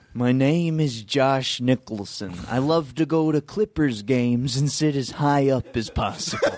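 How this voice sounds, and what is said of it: Jack Nicholson-style impression. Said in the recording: “I got an impression ... This is Josh Nicholson. ... Jack Nicholson's brother.”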